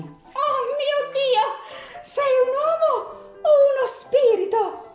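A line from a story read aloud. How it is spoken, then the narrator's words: Astonished exclamation in unison. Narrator (Italian): esclamarono all'unisono, esterefatte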